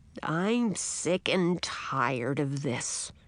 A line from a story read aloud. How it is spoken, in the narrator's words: grumbled the old man